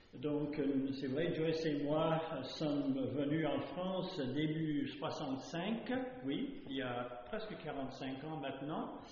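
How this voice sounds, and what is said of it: North American accent speaking French. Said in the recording (French): “vous allez tout de suite détecter l'accent qui n'est ni de la Suisse, ni de l'Alsace, ni de je ne sais où. C'est un accent ni d'outre-Manche, mais plutôt d'outre-Atlantique”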